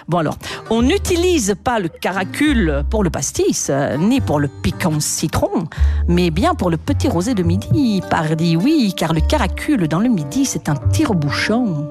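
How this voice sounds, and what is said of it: Put-on southern French accent. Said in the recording (French): “l'accent. On a voyagé en tout cas”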